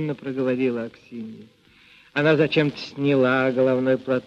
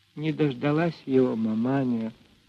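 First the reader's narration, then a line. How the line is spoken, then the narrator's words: Quiet. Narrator (Russian): тихо сказала она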